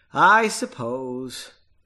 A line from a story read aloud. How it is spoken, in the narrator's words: Sighing, she replied